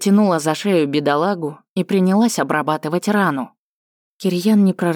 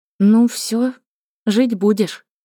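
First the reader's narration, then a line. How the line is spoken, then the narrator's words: Uncertain. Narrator (Russian): неуверенно произнесла Таня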